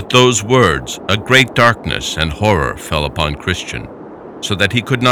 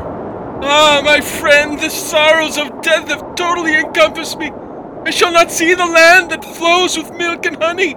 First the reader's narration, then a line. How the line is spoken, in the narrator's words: Christian cried out further